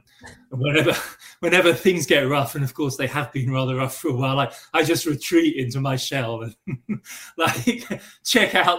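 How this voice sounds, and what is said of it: English accent. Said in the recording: “I have an English accent”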